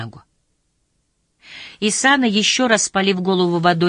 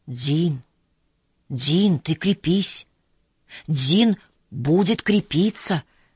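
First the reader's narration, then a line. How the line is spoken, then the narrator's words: Whisper. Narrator (Russian): шептал Исана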